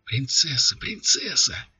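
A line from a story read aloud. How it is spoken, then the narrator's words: Crowd whispering all around. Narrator (Russian): зашептали кругом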